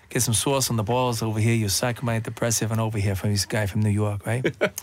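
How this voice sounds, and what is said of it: Put-on New York accent. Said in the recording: “you used to do a lot of accents ... from New York right there ... That guy over here is from New York”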